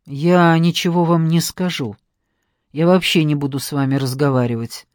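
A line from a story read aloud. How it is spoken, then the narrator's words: Gloomy reply. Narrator (Russian): мрачно ответил Максим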